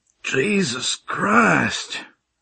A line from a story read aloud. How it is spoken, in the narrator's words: I groaned out